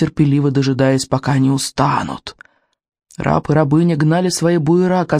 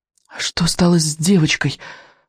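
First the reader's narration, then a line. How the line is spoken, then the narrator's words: Horrified, forced out. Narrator (Russian): в ужасе выдавил, наконец, Икинг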